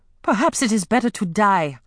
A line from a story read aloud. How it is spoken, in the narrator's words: Amari told her sharply